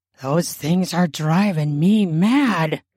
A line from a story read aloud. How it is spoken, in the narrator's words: she mutters in a wanton voice